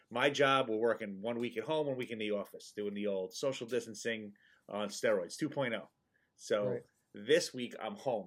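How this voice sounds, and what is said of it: Subdued, quiet monotone, slightly nasal. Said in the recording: “not too excited, not too loud ... I got to be a little monotone. I got to sound a little down ... And I don't have the sniffles. It does sound like it”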